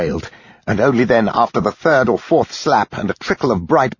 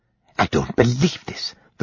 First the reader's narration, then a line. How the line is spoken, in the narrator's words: the sister muttered